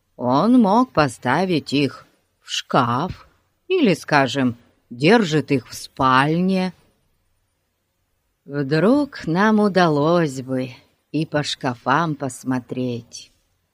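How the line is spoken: Sighing. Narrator (Russian): вздохнул Ларри

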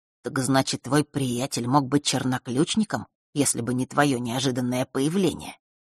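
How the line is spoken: Barely audible. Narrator (Russian): произнес он так тихо, что даже девочка еле услышала его

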